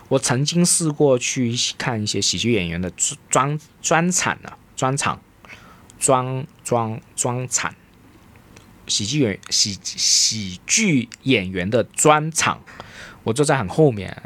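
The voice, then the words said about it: Strong Cantonese accent in Mandarin. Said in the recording (Chinese): “即使我有很大的广东口音，大家一听应该都听得出我有广东口音。”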